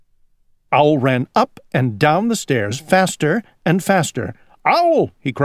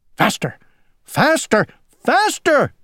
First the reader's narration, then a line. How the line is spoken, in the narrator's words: cried Owl